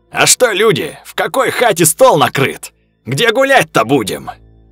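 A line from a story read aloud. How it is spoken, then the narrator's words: Shouted. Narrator (Russian): Крикнул Степка колокол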